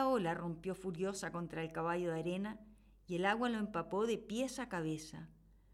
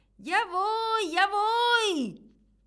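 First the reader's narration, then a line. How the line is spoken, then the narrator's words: Horse shouting again. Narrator (Spanish): volvió a gritar el caballo de arena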